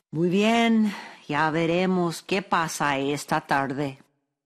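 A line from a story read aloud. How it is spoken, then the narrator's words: Sighing, distressed. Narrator (Spanish): quedó acongojado por la pérdida de todas las manzanas, pero suspiró y dijo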